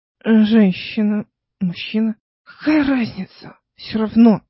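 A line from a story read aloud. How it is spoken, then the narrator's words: Muttered. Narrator (Russian): пробормотала она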